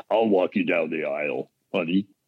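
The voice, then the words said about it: Imitates another person's voice. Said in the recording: “That was my impression.”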